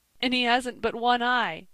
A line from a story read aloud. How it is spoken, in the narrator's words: still laughed, while little Davy giggled too